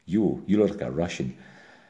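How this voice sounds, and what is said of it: Put-on Russian accent. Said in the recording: “Czechs and Russians walk up to me at parties and say, "I'll do the accent.”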